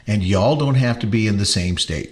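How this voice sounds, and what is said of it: Slight put-on southern drawl. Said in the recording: “That's southern drawl a little bit.”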